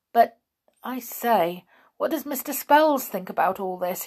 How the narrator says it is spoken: he said nervously

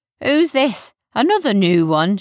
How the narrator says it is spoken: chuckled

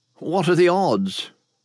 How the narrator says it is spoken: William asked hesitantly

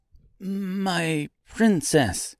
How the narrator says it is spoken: said nervously, his voice cracking as the words struggled to come out

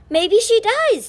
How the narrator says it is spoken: Ty cried

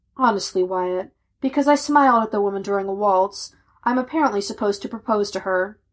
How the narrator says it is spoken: Wearily, he replied

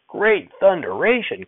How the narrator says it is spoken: Grandfather hollered

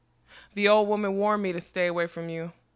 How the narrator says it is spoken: he chuckled pleasantly

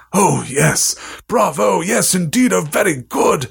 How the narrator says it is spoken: Ollivander cried

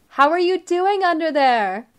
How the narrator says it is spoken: asked loudly over the dryer

